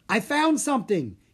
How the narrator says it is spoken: he cried

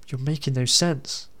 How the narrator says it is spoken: Alison replied

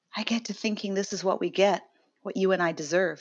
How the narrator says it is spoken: she whispered

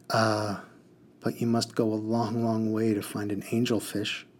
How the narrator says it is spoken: he sighed

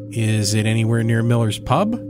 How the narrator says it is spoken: Richie laughs

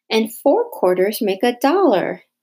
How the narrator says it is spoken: Ryan exclaimed

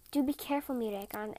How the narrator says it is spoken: said

